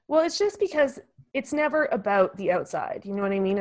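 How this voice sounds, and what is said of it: Teary, emotional voice. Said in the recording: “I start to get teary”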